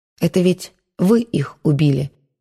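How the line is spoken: Soft, gentle. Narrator (Russian): мягко сказала Маша

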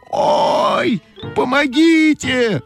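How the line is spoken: Screaming for help. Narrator (Russian): закричала Ойка

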